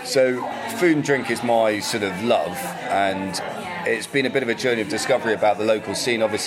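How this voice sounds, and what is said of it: Southern English accent. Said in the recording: “as you can probably tell from the accent, I've not been up here very long... I've always lived in the south”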